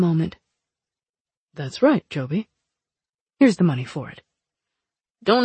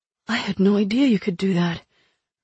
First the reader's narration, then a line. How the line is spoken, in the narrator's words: Lick breathed